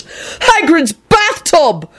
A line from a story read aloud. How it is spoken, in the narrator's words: Neville screamed